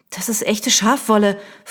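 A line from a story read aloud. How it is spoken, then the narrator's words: Angry hiss. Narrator (German): fauchte sie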